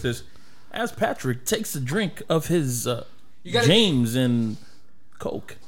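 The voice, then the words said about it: Imitates a film actor's narrating voice. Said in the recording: “I want you to do an impression... imagine Christopher Walken is narrating your life”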